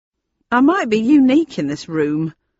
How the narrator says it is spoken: he said in a loud, clear voice

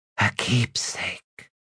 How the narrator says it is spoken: she whispered

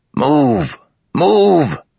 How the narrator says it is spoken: Gaz bellowed

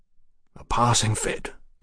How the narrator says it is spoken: Mallory croaked

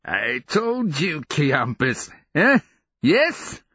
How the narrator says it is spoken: Sarl began cackling in his strange, inward way, muttering

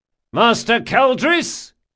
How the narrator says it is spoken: shouted Locke, unable to disguise his mirth

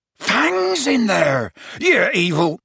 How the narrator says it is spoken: Hagrid bellowed

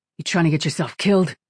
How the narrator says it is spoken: Falcone growled in Kira's ear

